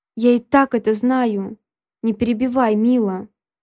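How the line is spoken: Growl. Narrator (Russian): Рыкнул он

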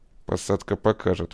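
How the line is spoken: Through gritted teeth. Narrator (Russian): процедил Акимов

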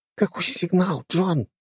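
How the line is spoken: Whisper. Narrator (Russian): шепнула Алисия

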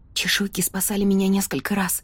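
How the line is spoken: Whisper. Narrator (Russian): прошептала я

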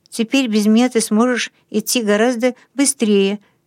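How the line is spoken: Slightly trembling voice. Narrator (Russian): сказал Расмус слегка дрожащим голосом

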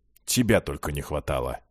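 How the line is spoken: Grumbling. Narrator (Russian): проворчал горец

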